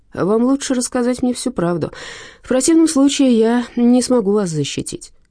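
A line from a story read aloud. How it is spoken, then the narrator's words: Sighing. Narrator (Russian): он вздохнул и сказал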